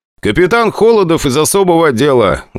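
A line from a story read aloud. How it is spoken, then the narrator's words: Loud, into ear. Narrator (Russian): громко сказал я на ухо Саламову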